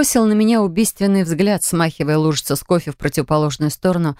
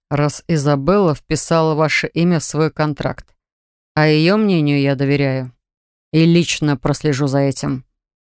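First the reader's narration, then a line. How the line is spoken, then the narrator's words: Through gritted teeth. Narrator (Russian): процедил он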